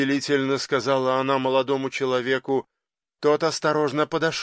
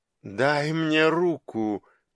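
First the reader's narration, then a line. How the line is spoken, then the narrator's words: Asking. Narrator (Russian): попросила она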